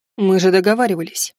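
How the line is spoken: Scoffing. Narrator (Russian): хмыкнул он

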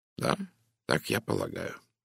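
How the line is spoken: Calm reply. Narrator (Russian): спокойно ответил Пуаро

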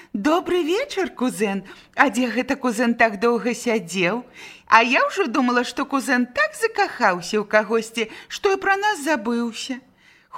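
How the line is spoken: Tossed teasingly, then giggling. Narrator (Belarusian): дзяўчаты кідалі гэтыя словы госцю цераз плячо, потым захіхікалі

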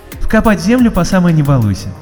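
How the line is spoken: Cheerful reply. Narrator (Russian): весело откликнулась Розалинда

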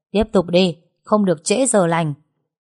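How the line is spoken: Shouted command. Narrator (Vietnamese): cậu hai lại hét lên ra lệnh

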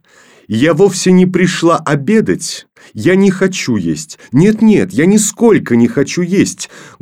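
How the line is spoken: Loud, insistent. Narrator (Russian): громко повторила она

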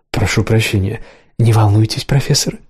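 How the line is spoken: Conspiratorial whisper. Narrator (Russian): заговорчески зашептал Мерсат

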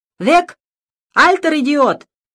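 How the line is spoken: Loud shout. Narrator (Russian): громко крикнул

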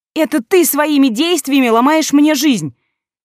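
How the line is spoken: Angry shout. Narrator (Russian): в гневе выкрикнула

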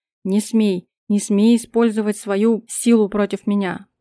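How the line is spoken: Demonic growl. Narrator (Russian): прорычал, чувствуя, как его демоническая сущность рвется наружу

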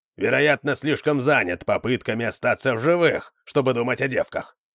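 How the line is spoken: Muttering. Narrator (Russian): пробурчал Вандар

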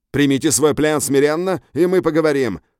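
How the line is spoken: Shouted. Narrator (Russian): крикнул охотник

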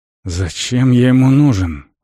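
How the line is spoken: Strained, forced words. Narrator (Russian): выдавил Вент

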